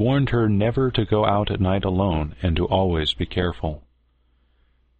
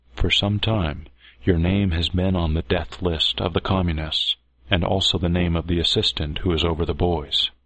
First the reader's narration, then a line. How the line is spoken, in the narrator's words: said in a low voice